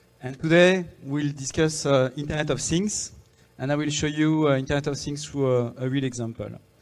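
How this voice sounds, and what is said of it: French-accented English. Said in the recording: “you will have to get used to my French accent”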